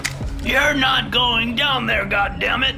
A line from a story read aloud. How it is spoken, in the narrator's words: he shouted